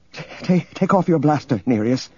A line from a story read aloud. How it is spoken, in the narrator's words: she said shakily